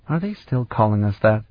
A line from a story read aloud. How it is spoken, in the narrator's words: Sarabian murmured